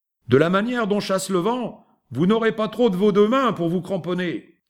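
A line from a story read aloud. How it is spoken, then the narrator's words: Shouted. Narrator (French): cria-t-il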